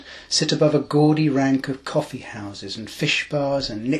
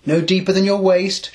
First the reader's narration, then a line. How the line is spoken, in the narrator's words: shouts the father